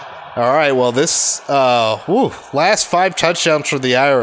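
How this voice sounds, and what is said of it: Usual voice. Nothing is said of it.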